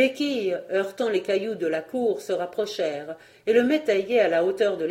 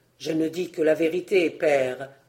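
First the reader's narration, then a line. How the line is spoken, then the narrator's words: Low voice. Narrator (French): reprit à voix basse l'aîné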